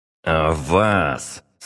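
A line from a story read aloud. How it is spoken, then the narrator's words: General through gritted teeth. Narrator (Russian): сквозь зубы проговорил генерал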